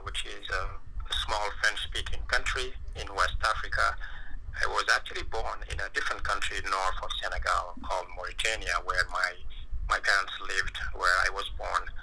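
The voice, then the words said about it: Speaks with a noticeable accent. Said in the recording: “your amazing accent”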